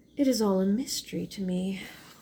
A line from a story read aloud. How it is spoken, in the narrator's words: she sighed